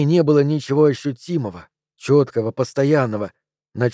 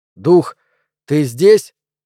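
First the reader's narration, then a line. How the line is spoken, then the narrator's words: Loud and resolute. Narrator (Russian): громко и решительно произнес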